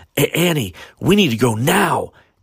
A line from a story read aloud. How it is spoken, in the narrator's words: Eric shouted